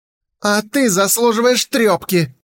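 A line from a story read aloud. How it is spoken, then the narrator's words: Snapping retort. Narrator (Russian): огрызнулся Хумэнзы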